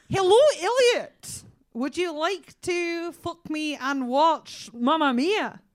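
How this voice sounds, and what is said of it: Put-on Scottish accent. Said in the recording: “Can you do a Scottish accent?... Absolutely bang on that. Absolutely perfect.”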